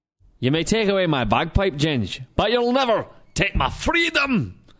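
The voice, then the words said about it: Put-on Scottish accent. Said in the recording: “not only did you get a Scottish accent”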